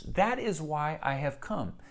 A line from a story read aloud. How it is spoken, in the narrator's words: he said